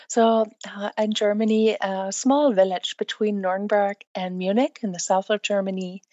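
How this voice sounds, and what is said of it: Slight non-native English accent. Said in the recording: “you don't sound like English is your first language... I can hear a slight accent.”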